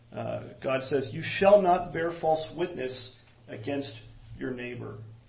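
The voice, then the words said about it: Reads slowly. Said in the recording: “I'll read it slowly”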